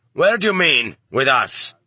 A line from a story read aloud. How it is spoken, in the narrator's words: the master sergeant barked at him more loudly than he needed to